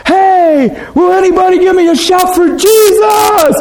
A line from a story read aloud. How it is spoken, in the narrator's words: he'd yell up the aisle in a mall real loud